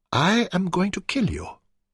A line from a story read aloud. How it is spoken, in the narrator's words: she said softly